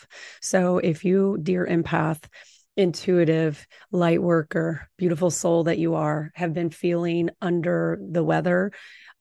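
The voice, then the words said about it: Slightly altered voice from a cold. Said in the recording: “my voice is actually transforming ... the transformation of my voice, or just having a mild cold”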